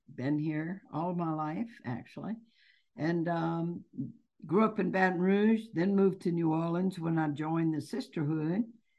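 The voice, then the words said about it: Louisiana Southern American accent. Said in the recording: “Louisiana. Maybe you can pick it up in my accent.”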